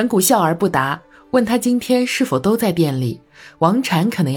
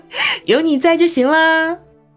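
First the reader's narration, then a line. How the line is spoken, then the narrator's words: Chuckling. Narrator (Chinese): 陈月嘿嘿笑道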